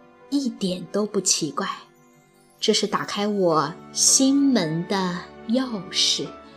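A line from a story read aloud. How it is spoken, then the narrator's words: Soft whisper in ear. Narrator (Chinese): 路易斯小姐 在他耳边轻声地说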